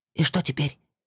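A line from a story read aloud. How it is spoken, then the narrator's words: Whisper. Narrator (Russian): Денис шепотом спросил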